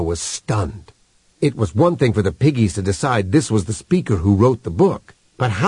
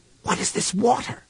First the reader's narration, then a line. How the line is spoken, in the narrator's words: he whispered